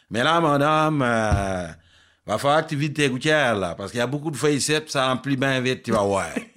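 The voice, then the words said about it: Typical Longueuil Quebec accent. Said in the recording (French): “avec un accent typique de Longueuil”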